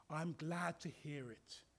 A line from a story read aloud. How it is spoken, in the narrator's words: said the vicar, in that kindly tone so often possessed by men of the cloth